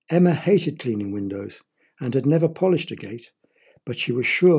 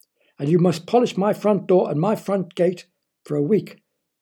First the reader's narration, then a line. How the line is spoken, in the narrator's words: snapped Mr